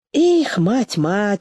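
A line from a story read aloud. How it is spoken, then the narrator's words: Sighing. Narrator (Russian): вздохнул Семен Петрович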